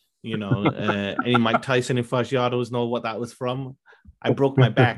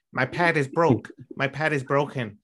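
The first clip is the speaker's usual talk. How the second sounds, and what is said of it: Mike Tyson impression. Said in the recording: “in my Mike Tyson voice”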